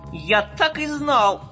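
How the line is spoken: Shout. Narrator (Russian): закричал Бурлик

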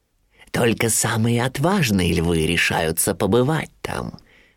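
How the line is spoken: Whispering. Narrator (Russian): нашептывал Шрам Симбе

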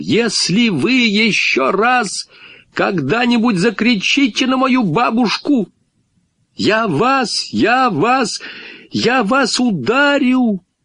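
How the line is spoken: High thin shout. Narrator (Russian): Он кричал высоким, тонким голоском

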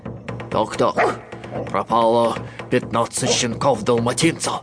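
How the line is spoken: Muttering under breath. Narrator (Russian): Пробормотал он себе под нос

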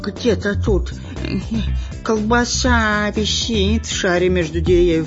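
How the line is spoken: Whining. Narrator (Russian): скулил шпион Дырка

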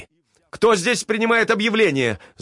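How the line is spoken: Shouting. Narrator (Russian): закричал Ковалев

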